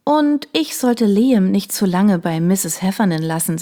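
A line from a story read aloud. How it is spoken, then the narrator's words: Plain. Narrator (German): sagte ich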